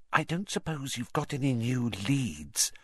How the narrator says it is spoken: she added in a whisper so that Madame Pomfrey couldn't hear her

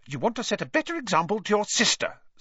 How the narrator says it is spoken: snapped Mrs

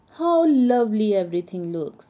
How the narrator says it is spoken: sighed Pink Elephant happily

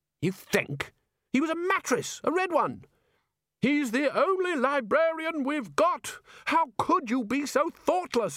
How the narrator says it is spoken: shouted Ridcully

